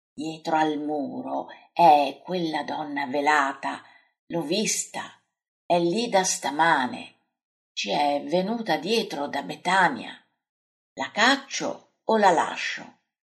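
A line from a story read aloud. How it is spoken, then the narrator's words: Quiet murmur. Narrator (Italian): Pietro gli mormora piano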